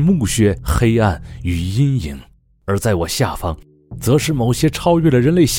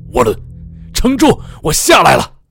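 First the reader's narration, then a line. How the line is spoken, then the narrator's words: Desperate scream. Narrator (Chinese): 我的朋友爆出了一阵完全绝望的尖叫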